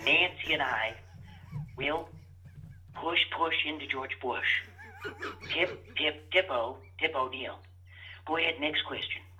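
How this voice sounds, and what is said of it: Imitates another person's voice. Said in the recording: “pretty good Ronald Reagan impersonation ... it sounded like the Gipper. That's pretty good.”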